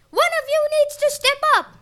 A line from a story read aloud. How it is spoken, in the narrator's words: Gaia cried